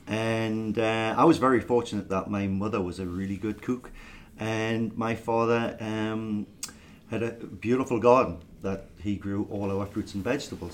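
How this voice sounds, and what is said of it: Northeast English accent. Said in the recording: “I hope everybody can understand the accent. I am actually English. A lot of people think I'm Scottish, and some people think I'm Irish ... I'm from the northeast of England, a place called Newcastle upon Tyne”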